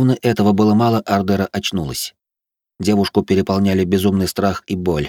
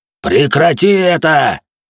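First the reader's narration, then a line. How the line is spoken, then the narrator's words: Roared. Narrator (Russian): взревел кузнец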